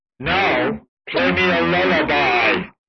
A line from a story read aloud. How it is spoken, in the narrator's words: roared the giant